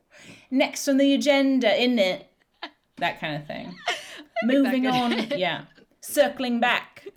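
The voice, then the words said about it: Put-on comedic office meeting accent. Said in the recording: “My meeting accent? ... funny voices and accents”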